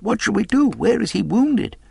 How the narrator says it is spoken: we cried

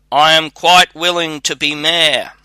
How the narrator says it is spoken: the shepherd cried

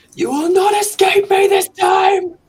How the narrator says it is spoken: Johan just kind of bellows impotently into the dark

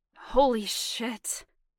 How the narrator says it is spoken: he said roughly

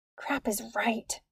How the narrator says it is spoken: whispered

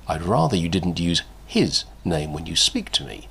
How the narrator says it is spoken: Watson said smoothly

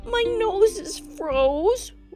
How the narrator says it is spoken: whimpered Lucy

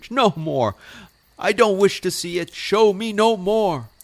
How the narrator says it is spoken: cried Scrooge

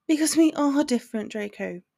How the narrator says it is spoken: told him, somewhat sadly

